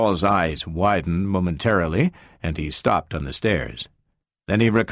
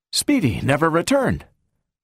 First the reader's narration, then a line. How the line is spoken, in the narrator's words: He took a deep breath and blurted out